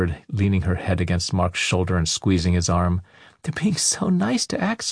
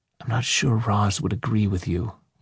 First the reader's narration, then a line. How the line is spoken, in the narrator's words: Mark whispered back